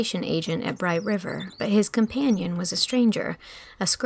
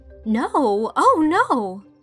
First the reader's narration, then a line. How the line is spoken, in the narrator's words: cried Anne, flushing so guiltily